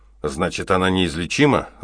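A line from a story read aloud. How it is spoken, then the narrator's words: Irritated question. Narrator (Russian): раздраженно спросил Треверс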